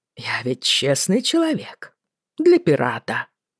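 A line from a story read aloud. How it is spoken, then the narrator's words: Laughing. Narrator (Russian): рассмеялся Боннет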